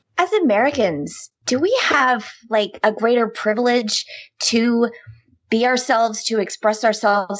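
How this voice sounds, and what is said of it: American Midwest accent. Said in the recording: “being from the Midwest, my accent ... it's the accent that's used in television and movies”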